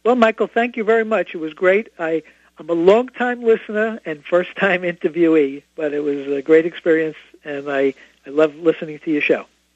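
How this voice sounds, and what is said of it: Brooklyn accent. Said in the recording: “because of my Brooklyn accent, people don't understand”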